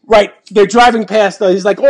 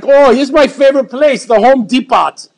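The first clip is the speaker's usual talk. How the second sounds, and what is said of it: Imitated Indian English accent. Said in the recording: “makes fun of his own English Indian accent”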